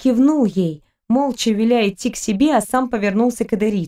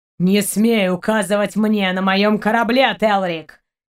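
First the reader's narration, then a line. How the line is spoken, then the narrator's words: Growling. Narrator (Russian): прорычал Шейн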